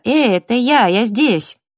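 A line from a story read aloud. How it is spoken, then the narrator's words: Shouted. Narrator (Russian): Крикнула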